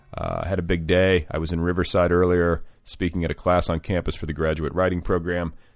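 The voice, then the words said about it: Strained, tired late-night voice. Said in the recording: “It's late. Can you hear it in my voice? Can you hear the vocal strain?”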